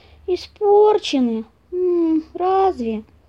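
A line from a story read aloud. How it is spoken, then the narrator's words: Disappointed drawl. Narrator (Russian): Разочарованно протянул ученик и помощник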